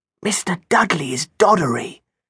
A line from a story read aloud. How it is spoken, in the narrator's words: Jenna whispered